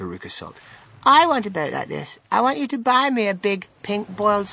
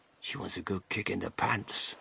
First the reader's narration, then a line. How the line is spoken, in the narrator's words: whispered Grandpa Joe to Charlie